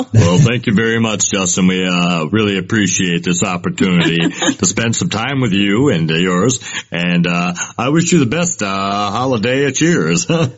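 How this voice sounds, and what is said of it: Classic radio announcer voice. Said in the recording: “the classic radio voice. It's a very good one.”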